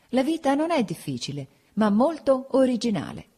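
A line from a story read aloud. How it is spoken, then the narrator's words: Laughing. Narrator (Italian): dissi ridendo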